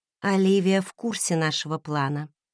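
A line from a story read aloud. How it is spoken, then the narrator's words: Quiet. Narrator (Russian): тихо проговорила я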